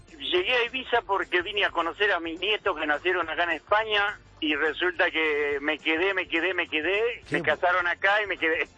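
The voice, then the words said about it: Argentine Rosario Spanish accent. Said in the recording (Spanish): “te noto un acento de que no eres español ... rosarino”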